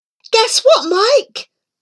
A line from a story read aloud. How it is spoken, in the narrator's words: shouted out